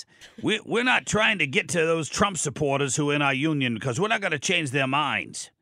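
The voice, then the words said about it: Put-on New York accent, Bernie Sanders-like. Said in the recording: “I tried to do my best New York accent, I sound like Bernie Sanders.”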